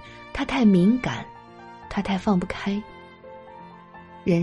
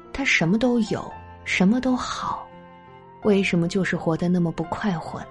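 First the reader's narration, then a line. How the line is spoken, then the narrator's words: Sighing father. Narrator (Chinese): 他的父亲明珠都曾感叹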